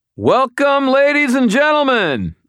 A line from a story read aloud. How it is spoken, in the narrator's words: hollered